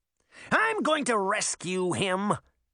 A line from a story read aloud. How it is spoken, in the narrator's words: shouted angrily